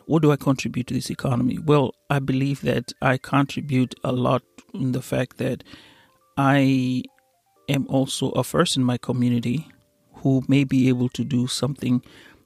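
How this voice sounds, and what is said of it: Accented English speaker. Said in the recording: “I do have an accent. ... an African who is from East Africa”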